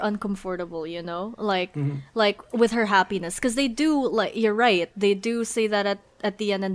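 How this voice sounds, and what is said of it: Accent with unusual word stress. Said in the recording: “I love how you said that word ... It's my accent ... put the emphasis on the wrong syllables”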